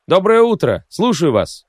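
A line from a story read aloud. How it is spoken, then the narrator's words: Cheerful shout into phone. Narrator (Russian): бодро прокричал я в трубку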